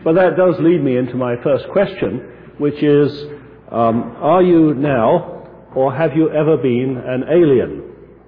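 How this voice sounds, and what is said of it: English accent, hoarse croaky cold voice. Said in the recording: “The English accent that I have is going to be overlaid today with a genuine American cold. So I'll do my best not to croak too loud”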